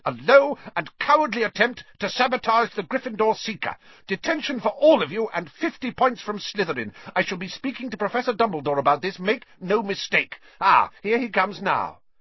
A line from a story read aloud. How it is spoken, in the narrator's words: she was shouting